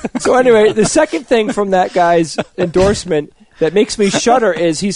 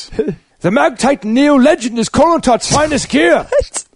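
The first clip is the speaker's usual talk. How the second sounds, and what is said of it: Shouted, garbled attempt at Scottish accent. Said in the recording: “Rory has a Scottish accent ... I think you just invented a new accent that's never been heard before. ... I think it's just shouting. It's like a Klingon variant.”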